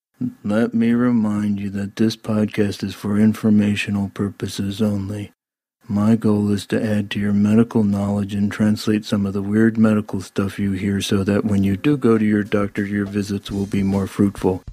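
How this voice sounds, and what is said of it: Deliberately boring, monotone voice. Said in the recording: “I'm going to say in a real boring tone of voice, so maybe that'll help you fall asleep”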